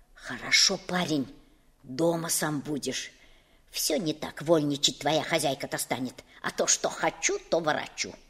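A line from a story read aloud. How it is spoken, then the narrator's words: Quick whisper. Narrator (Russian): тетя Галя заговорила быстрым шепотком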